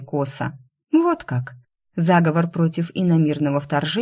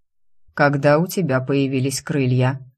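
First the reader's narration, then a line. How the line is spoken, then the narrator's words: Dry question. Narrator (Russian): сухо спросил он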